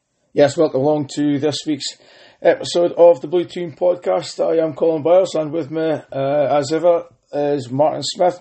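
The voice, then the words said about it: Strained, damaged-sounding voice. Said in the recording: “You could probably tell by my voice already, still suffering a little bit ... my voice was absolutely horrendous on Saturday night, Sunday ... if you're struggling to pick me up”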